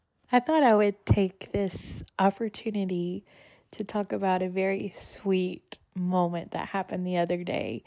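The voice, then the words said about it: Weird, sick-sounding voice. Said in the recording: “My voice sounds weird. I apologize. I've been sick the past couple of days, and my throat doesn't hurt as bad, but it has been hurting.”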